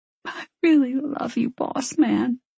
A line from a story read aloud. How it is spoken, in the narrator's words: she said hoarsely